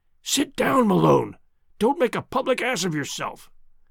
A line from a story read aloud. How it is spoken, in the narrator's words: Tarp Henry, my companion, I heard him whispering